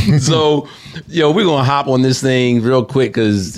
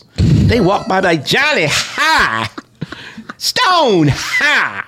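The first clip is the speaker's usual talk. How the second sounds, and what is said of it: Put-on Southern drawl. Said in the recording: “I automatically have a Southern accent. ... Southern drawl.”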